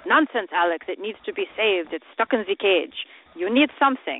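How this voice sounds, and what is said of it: Imitated accented voice of father. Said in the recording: “in his accent”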